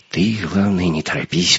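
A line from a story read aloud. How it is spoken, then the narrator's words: Whispered. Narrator (Russian): прошептал Леха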